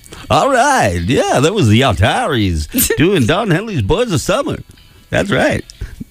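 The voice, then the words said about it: Fake radio DJ voice. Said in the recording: “my fake radio voice”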